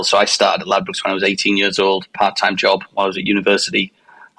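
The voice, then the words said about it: Northeast English (Teesside) accent. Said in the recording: “This is not a California accent, as you've probably already determined. So I grew up in northeast of England, in Teesside”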